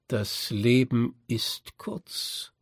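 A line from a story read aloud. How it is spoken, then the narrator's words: Slow. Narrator (German): sagte ich langsam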